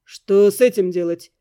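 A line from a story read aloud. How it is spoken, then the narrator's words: Gloomy question. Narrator (Russian): мрачно спросил Эддингтон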